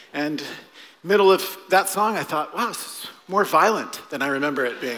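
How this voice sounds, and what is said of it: Out of breath, panting. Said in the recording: “Now I'm out of breath.”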